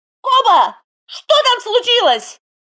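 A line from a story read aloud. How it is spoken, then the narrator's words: Impatient yell. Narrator (Russian): Арм заорал в нетерпенье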